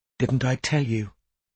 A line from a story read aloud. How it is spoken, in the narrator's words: Kiara whispered to Strike